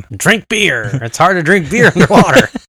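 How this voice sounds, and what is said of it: Imitates another person's voice. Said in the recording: “my Jason Momoa impression ... It's spot on ... he just grunts and growls every so often”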